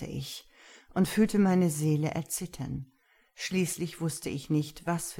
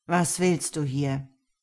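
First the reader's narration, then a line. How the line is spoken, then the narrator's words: Growled. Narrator (German): knurrte er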